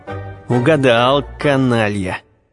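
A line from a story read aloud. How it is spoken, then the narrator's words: Through gritted teeth. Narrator (Russian): градоначальник, хотя и сквозь зубы, но довольно неосторожно сказал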